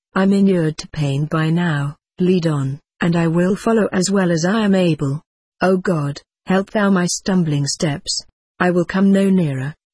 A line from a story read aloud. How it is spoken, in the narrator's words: he answered